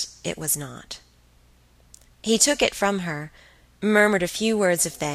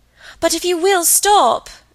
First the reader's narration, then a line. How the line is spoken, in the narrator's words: cried Margaret